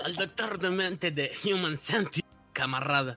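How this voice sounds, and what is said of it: Put-on Russian accent. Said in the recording (Spanish): “con acento ruso”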